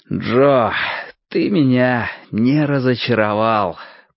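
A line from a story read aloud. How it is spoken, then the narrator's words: Muttered, then laughing. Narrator (Russian): пробормотал я и рассмеялся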